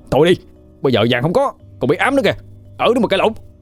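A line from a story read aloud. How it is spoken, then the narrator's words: Shouting. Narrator (Vietnamese): Quân thấy hai người cãi nhau thì cũng hét lên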